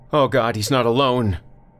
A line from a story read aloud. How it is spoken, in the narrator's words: shouted something like